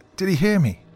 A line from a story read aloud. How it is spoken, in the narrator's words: Christina asked Carol with urgency in her trembling voice